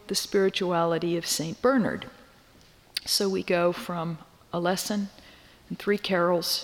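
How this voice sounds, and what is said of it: Usual voice. Nothing is said of it.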